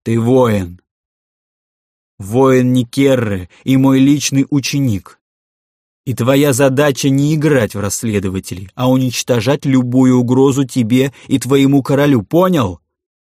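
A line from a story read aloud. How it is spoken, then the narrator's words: Barking. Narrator (Russian): рявкнул сын Сахога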